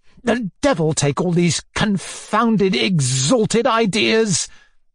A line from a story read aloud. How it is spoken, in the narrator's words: he growled half aloud